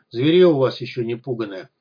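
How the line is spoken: Grumbling mutter. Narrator (Russian): пробурчал стрелок

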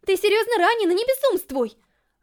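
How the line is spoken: Shouted reply. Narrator (Russian): Глория заорала в ответ

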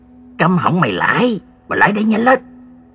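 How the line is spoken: Soft excited cry. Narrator (Vietnamese): gã rú lên khe khẽ

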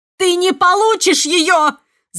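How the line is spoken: Scream. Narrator (Russian): закричала

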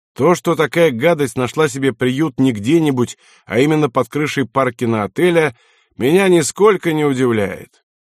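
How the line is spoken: Loud, military officer. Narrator (Russian): комендант военной гавани Лена Хамари майор Фрэнк громко сказал

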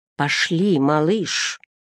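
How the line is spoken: Whisper in the ear. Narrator (Russian): шепнул на ухо

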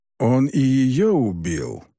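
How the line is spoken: Gloomy question. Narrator (Russian): мрачно спросил Юкай

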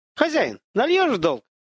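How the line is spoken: Shout. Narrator (Russian): крикнул пинчушка

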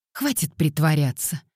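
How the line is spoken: Irritated curt remark. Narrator (Russian): раздраженно бросила она

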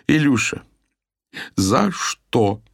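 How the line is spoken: Struggling through helpless laughter. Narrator (Russian): с трудом выговорила Майя сквозь приступы неудержимого хохота

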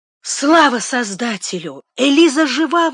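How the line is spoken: Exclaiming. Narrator (Russian): воскликнула

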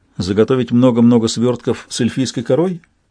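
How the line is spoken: Carefully non-mocking tone. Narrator (Russian): Я постарался, чтобы это не прозвучало насмешливо

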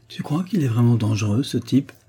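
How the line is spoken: Slightly trembling murmur. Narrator (French): murmura-t-il, la voix légèrement tremblante

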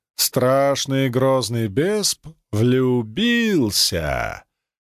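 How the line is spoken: Childlike drawn-out ending. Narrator (Russian): По-детски протянула последний слог

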